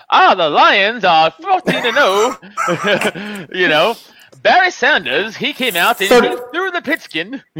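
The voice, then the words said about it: Put-on transatlantic accent. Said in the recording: “talk like a transatlantic accent”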